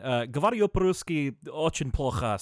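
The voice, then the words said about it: Poor put-on Russian accent. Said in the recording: “I sort of have a Russian accent, but it's terrible.”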